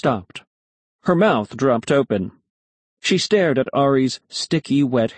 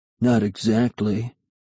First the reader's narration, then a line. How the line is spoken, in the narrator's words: Ari muttered